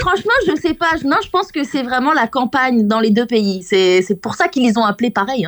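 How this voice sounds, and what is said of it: French accent. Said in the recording (French): “Je suis française, pour ceux qui reconnaissent pas l'accent.”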